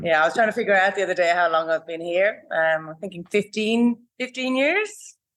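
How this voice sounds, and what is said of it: Irish accent. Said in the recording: “Is that an Irish accent I detect there ... It is indeed, yes.”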